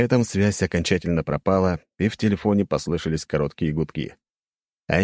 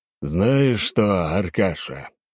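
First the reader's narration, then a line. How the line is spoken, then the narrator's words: Sighing. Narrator (Russian): вздохнул император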